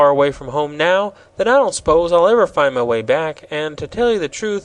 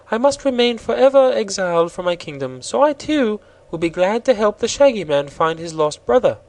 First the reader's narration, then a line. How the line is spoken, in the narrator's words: said Princess Ozga of Roseland with a gentle sigh